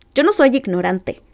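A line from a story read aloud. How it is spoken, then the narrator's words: Fed-up retort. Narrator (Spanish): le espetó Bruno, que estaba harto de los insultos de su hermana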